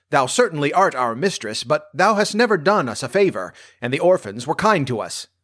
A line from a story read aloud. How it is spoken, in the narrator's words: barked the dogs